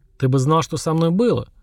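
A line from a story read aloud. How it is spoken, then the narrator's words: Wry snort. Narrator (Russian): хмыкнул тот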